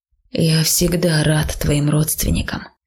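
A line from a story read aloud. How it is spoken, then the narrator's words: Quiet complaining troll. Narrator (Russian): тихонько жаловался тролль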